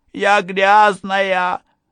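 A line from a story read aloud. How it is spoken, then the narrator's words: Hysterical shriek. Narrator (Russian): завизжала Эви в истерике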